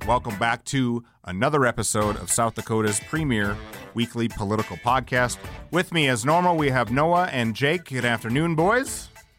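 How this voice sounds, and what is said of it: Sports announcer voice. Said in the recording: “Wow, professional... I'm like really dialing in my sports announcer voice lately.”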